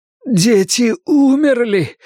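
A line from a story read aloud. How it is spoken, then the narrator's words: Groaning. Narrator (Russian): простонал Пик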